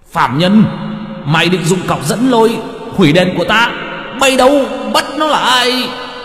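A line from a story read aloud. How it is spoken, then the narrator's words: Hissing shriek. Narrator (Vietnamese): Quan nọ rít lên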